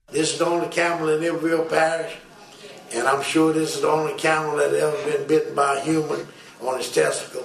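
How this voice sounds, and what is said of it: Thick Bayou accent. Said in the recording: “that Bayou accent, I can never understand it.”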